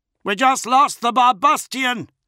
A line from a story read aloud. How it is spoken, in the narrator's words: someone yelled